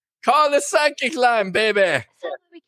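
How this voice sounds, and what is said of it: Miss Cleo Jamaican accent impression. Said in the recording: “He's taking after Miss Cleo here... Miss Cleo had that Jamaican accent.”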